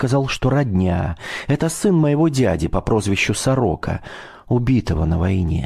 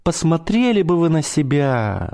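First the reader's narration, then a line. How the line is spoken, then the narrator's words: Sighing navigator. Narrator (Russian): вздохнул штурман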